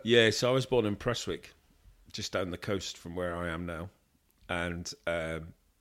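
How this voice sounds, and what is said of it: Slight English accent. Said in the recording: “a wee tinge of an English accent”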